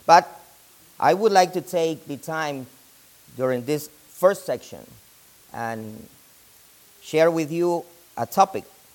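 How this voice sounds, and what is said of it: Non-native English accent. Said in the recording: “It's a little bit difficult for me, but I speak it ... you understand me because of my accent.”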